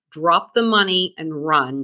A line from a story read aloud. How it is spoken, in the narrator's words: Jack snarled at Komen